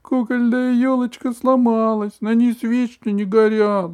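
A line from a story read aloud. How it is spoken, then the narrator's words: Whimpering. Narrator (Russian): захныкала она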